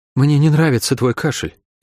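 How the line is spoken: Sighing. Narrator (Russian): вздохнула Шерон

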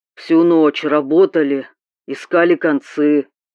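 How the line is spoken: Deep voice over phone. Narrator (Russian): пробасил в трубке его голос

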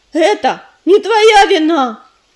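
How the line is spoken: Sudden furious shout. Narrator (Russian): с неожиданной яростью выкрикнула Листвичка

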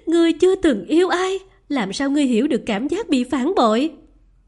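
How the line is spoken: Bitter laugh, furious voice. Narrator (Vietnamese): Phương Nhiên Tê bật cười thê lương, giọng bà ta đầy căm phẫn

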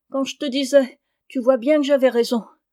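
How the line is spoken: Whimpering. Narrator (French): Lucas, pleurnichant

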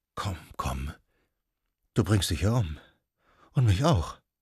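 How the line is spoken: Murmured. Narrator (German): Sie murmelte

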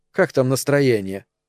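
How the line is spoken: Cold question. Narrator (Russian): холодно спросила Эльза

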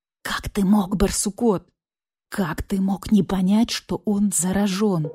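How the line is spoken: Whispered. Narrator (Russian): прошептал барсук-старший

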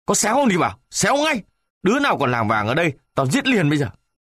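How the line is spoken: Angry shout. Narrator (Vietnamese): Cậu lính tức quá, quát

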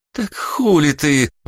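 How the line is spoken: Breathless. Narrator (Russian): выдохнула девушка

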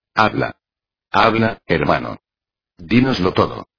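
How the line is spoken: Exclamation. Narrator (Spanish): exclamó Honorio

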